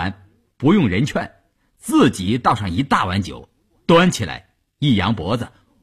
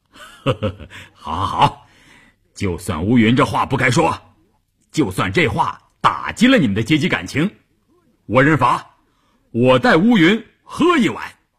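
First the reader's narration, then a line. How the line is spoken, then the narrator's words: Chuckling. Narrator (Chinese): 关山林笑呵呵地说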